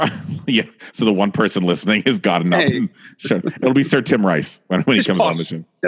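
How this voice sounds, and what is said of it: Usual voice. Nothing is said of it.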